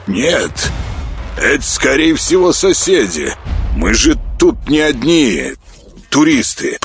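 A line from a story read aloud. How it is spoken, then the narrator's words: Distracted grumble. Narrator (Russian): проворчал тот, занятый своим пультом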